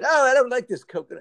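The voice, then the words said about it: Put-on British accent. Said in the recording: “maybe from Britain ... you did a good accent ... a British guy”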